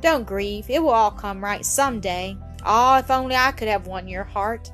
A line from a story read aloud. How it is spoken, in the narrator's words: he sighed deeply